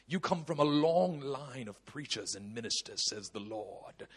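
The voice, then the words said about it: Put-on British accent. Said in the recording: “when people prophesy with a British accent, it just sounds anointed”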